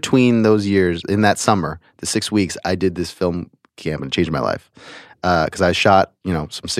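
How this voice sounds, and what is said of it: Usual voice. Nothing is said of it.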